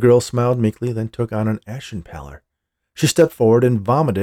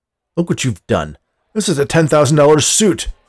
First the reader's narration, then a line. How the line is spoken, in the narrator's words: exclaimed